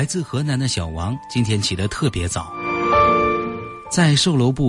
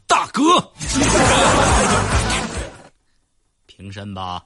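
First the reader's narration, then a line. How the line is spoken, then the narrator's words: Two voices shouting. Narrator (Chinese): 那俩喊一声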